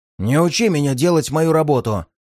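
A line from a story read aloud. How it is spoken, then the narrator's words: Snapping retort. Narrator (Russian): огрызнулся Хусин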